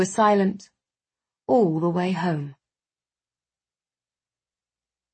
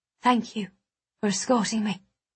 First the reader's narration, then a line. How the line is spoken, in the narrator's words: whispered, my voice dull